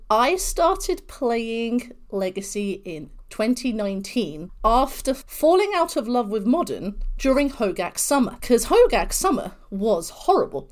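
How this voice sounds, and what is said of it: British accent. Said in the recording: “this beautiful British accent”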